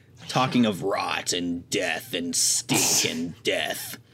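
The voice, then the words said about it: Imitates a show character's voice. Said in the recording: “That's a really good Rupert impression”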